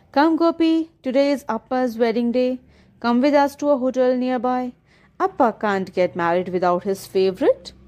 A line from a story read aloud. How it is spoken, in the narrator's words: Ajji called out to me